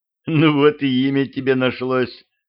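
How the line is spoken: Laughing. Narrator (Russian): смеялась

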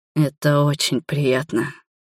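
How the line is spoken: Hoarse. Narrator (Russian): хрипло проговорил он

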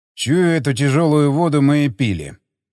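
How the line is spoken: Grumbling. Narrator (Russian): проворчал Стечкин

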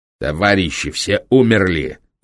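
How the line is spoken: Angry interrupting bark. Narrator (Russian): злобно рявкнул Курт, не дав спецмедику закончить фразу

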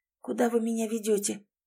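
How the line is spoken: Weak questioning voice. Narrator (Russian): слабым голосом спросила Лис

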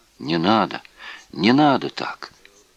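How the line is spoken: Quiet murmuring. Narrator (Russian): тихо приговаривал Виза

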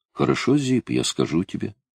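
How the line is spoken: Calm. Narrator (Russian): спокойно ответил Сиксто

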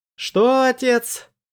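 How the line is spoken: Shouted. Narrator (Russian): крикнул он

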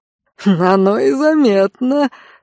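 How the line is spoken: Chuckling. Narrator (Russian): хохотнул барон

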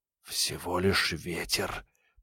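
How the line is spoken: Very quiet whisper. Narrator (Russian): прошептал Ник так тихо, чтобы его никто не подслушал

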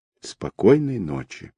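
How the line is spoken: Heavy sigh. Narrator (Russian): ответил Виктор и, тяжело вздохнув

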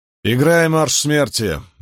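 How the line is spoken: Harsh command. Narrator (Russian): велел Ранд более грубым тоном, чем хотел

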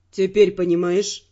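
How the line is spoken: Gentle question. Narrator (Russian): мягко спросил Тео

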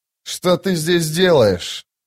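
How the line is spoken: Growling. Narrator (Russian): прорычал сын тьмы

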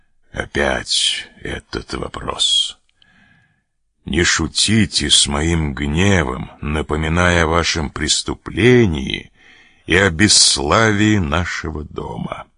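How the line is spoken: Gloomy, composed. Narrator (Russian): он тотчас взял себя в руки и сказал мрачным голосом

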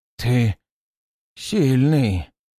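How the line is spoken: Hoarse croak. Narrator (Russian): прохрипел он, когда ледяная корка на его лице треснула и отвалилась

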